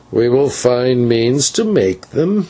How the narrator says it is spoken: answered the old man with a hideous chuckle

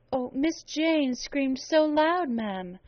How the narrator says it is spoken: pleaded Bessie

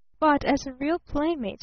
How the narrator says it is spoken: persisted evenly

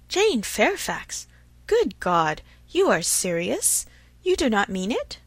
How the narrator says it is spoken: Emma even jumped with surprise, and, horror-struck, exclaimed

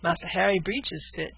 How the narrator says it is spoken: said Caesar with a chuckle

